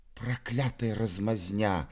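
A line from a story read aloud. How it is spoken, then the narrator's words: Whisper. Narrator (Russian): прошептал подле меня Мизинчиков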